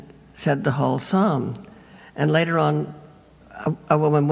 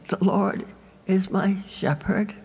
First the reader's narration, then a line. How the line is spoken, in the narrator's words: her quavering little old voice said